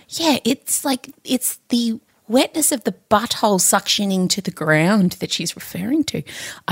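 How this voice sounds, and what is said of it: Whispering quietly. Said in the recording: “I don't know why I'm whispering. Everyone's going to have to turn their podcast up now.”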